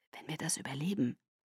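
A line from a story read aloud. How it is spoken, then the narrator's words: Quiet. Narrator (German): sagte Garrett leise zu Kate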